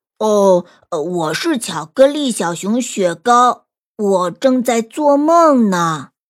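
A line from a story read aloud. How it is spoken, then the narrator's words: Gruff rough voice. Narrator (Chinese): 那个东西开口了，声音粗粗的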